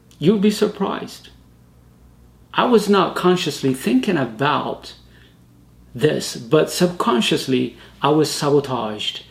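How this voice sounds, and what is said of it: Non-native English accent. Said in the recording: “because of your accent ... they don't like your accent ... because of my accent”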